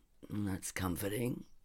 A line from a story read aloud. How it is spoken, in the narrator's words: he said dryly